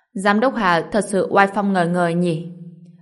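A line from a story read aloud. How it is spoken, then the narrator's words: Loud laughter. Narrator (Vietnamese): Ha ha ha, Hạng Tư Thành tức thì cười lớn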